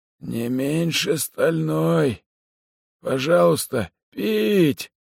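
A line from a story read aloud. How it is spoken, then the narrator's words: Hoarse wheeze. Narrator (Russian): прохрипел человек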